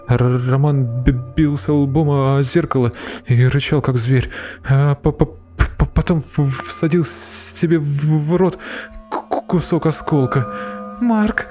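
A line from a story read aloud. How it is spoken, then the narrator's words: Sobbing, trembling. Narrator (Russian): Рыдая, тряслась Аня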